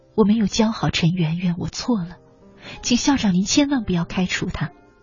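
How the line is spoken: Old hoarse voice. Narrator (Chinese): 他的声音苍老而又沙哑，只讲说

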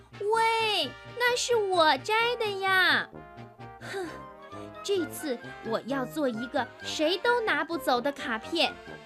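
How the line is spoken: Angry loud shout. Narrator (Chinese): 小乌龟瞪着眼，大声地喊道

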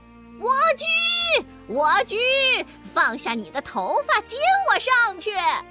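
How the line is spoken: Witch calling out. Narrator (Chinese): 巫婆的叫喊声

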